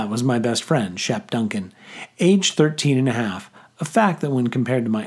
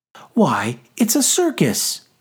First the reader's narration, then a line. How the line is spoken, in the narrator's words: Tabitha Sudgeons cried out